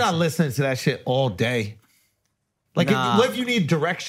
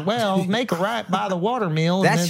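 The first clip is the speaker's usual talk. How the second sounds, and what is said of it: Put-on country twang accent. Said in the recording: “Out of that country twang ... Most people with that accent don't give Al directions.”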